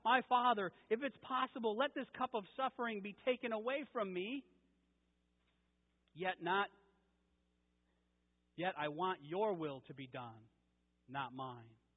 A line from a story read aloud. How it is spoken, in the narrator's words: Jesus was praying in the garden, he cried out